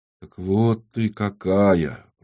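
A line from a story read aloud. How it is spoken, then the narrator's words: Mutter. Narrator (Russian): пробормотала Юлия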